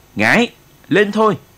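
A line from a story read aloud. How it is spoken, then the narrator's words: Shout amid battle cries. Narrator (Vietnamese): Anh hét lên trong lúc tiếng hô xung phong của bộ đội ta cũng rền vang trận địa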